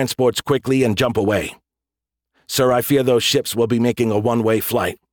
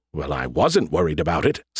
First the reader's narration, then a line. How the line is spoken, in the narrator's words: Skippy mumbled